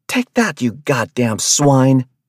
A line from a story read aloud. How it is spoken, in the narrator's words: she yelled